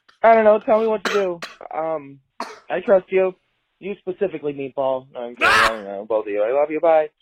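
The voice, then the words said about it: Michigan accent. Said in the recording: “that great Michigan accent”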